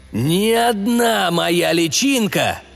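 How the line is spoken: Voice fades, then roars. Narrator (Russian): Голос его замер, а затем взревел

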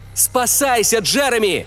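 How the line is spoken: Shouting. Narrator (Russian): крикнул я

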